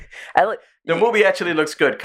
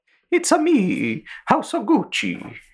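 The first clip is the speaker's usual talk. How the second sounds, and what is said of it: Exaggerated Mario-style Italian accent. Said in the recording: “He was doing just a Mario accent.”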